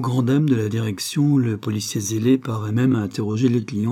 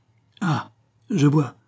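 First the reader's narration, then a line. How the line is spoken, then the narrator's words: Investigator exclaiming. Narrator (French): s'exclama l'enquêteur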